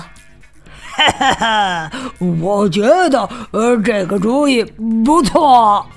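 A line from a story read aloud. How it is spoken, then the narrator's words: Mischievous laugh. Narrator (Chinese): 克拉拉坏笑着说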